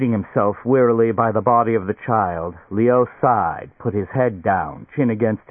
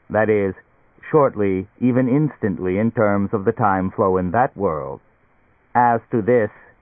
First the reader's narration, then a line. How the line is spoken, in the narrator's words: it chuckled